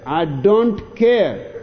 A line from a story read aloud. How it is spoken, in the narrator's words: snaps Arnie